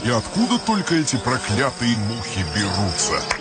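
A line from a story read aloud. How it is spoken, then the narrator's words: Kindly gardener grumbling. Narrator (Russian): ворчал добрый садовник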